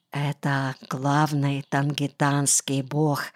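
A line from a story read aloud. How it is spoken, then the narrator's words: Whispered. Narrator (Russian): шепнул Кымыкей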